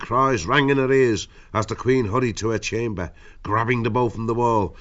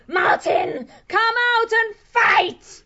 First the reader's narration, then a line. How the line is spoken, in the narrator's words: She shrieked